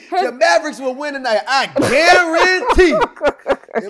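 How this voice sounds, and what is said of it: Charles Barkley impression. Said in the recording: “In my Charles Barkley voice.”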